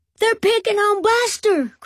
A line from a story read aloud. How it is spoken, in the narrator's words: cried Binky